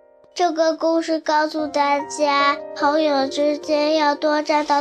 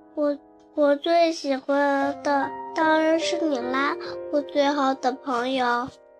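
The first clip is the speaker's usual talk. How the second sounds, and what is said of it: Soft, quiet character voice. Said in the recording (Chinese): “朵朵小声说”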